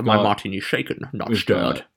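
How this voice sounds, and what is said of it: Sean Connery impression, Scottish accent. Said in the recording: “if you're doing a Sean Connery”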